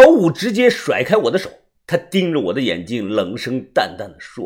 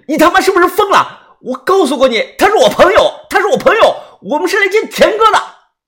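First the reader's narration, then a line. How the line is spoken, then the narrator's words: Loud furious scolding. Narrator (Chinese): 红着眼睛大声的呵斥他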